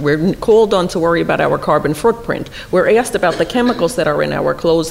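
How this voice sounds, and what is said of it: Speaker's own regional accent. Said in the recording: “Everybody hears my accent, you'll understand why I'm saying that, uh, being from where I'm from.”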